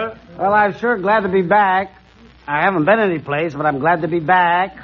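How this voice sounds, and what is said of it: Usual voice. Nothing is said of it.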